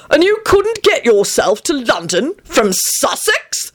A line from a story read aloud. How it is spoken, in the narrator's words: he bellowed